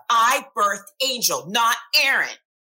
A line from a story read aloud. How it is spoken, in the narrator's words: Sonia would sit in my office and shout